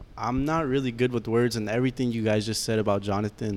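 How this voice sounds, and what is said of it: Nice deep voice. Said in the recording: “You have a nice deep voice.”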